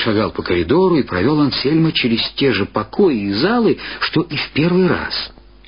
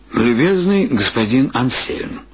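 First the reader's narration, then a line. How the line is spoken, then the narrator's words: Plain. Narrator (Russian): сказал архивариус Лингерст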